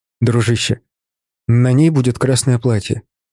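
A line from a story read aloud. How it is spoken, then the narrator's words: Soft reminder. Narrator (Russian): мягко напомнил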